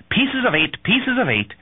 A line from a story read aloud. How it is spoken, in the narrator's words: the sailor's parrot, Captain Flint, who repeatedly shrieked